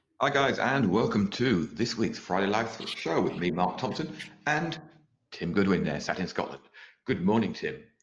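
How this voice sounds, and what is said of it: Posh announcer voice. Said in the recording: “the posh announcer voice”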